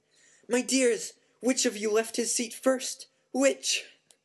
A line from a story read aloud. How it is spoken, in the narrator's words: she shrieked loudly